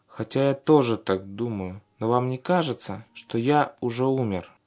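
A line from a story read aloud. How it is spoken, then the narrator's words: Plain. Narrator (Russian): спросил он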